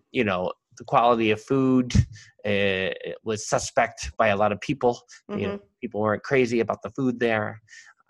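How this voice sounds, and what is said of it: New York accent, somewhat nasal. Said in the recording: “my New Yorkies? It's a very New York City episode here ... this podcast has brought out your accent more ... I'm a little more nasal”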